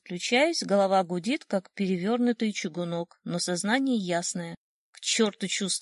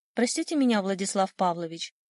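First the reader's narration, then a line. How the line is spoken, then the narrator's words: Hurried. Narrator (Russian): торопливо говорит секретарша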